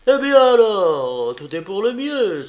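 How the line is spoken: Warm exclamation. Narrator (French): s'écria Will chaleureusement

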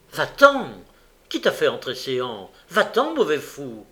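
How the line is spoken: Angry speech. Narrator (French): soupira, changea de couleur, et courroucé lui dit

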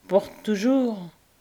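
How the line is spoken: Solemn. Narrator (French): dit l'étrangère d'un ton solennel

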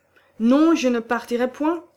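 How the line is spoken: Exclaiming. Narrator (French): s'écria Johannes

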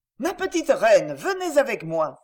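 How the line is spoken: Exclaimed. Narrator (French): s'écria-t-il

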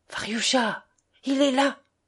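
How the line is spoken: Whispering. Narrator (French): chuchota-t-elle

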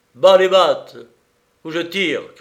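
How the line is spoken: Shouting. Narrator (French): criai-je

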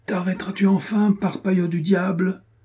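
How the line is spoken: Breathless shout. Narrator (French): cria Renaud hors d'haleine

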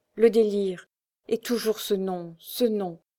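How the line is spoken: Halting, jerky voice. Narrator (French): répondit le comte d'une voix saccadée

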